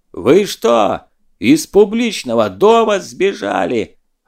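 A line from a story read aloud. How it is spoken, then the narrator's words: Yelling. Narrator (Russian): орал Скуратов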